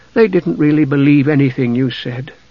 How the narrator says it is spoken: Palin sighed

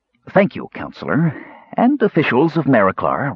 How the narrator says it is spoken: said with a slight sneer

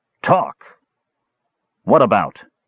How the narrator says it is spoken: Flint asked in an unfriendly tone

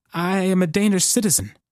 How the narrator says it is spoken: said, voice quavering

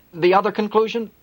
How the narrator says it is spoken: He blurted out

